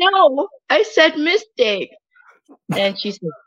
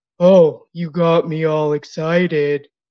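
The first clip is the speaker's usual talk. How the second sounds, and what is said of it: Imitates a movie character's voice. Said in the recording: “I do this really great impression”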